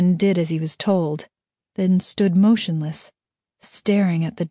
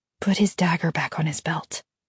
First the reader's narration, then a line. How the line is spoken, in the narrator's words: M said quietly